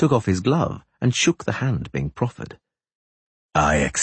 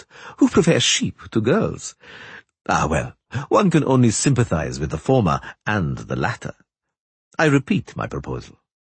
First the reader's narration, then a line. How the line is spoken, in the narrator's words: Three Jackdaws laughed